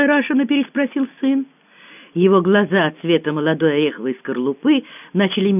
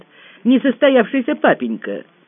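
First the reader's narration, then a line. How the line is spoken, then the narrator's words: Scoffing grunt. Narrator (Russian): Севка хмыкнул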